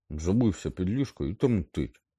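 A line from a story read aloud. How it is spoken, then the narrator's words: Angry. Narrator (Ukrainian): Сердито озвався Рон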